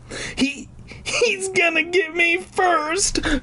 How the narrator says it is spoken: Clark cried

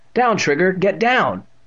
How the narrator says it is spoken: Evan cried

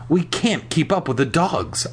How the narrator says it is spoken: I gasped

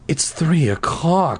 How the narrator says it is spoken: she cried

